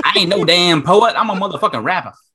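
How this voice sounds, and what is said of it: Poor imitation of a rapper's voice. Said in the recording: “my terrible Lil Wayne impression”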